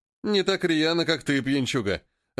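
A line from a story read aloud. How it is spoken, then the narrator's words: Laughing man. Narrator (Russian): рассмеялся мужчина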